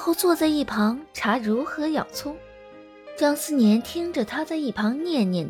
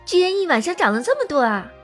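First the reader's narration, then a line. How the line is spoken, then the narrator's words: Surprised and delighted. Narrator (Chinese): 声音带着惊喜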